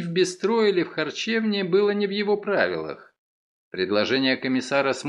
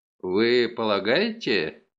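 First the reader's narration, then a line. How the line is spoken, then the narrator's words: Embarrassed mutter. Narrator (Russian): смущенно пробормотал лейтенант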